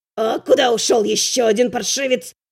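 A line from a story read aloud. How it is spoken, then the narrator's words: Hissing. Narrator (Russian): Прошипел Буздюк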